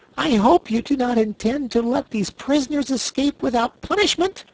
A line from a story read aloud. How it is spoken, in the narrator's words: exclaimed Corporal Waddle in protest